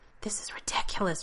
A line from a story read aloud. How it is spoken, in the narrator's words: Rodney says in a whisper